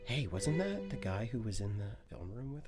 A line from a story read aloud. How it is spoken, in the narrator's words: you hear someone whisper